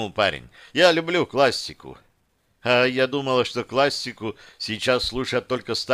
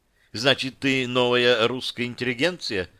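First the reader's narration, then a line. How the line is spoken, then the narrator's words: Plain question. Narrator (Russian): спросила Яна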